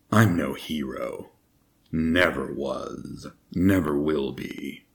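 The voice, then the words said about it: Solid Snake impression, gravelly voice. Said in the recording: “I sound like Solid Snake ... my Solid Snake impression.”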